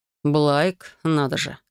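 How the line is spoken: Snorting, husband. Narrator (Russian): хмыкнул муж

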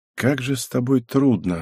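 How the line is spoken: Sighing. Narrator (Russian): вздохнул Юцуки

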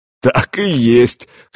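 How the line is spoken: Chuckling. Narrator (Russian): хохотнул Гуннар

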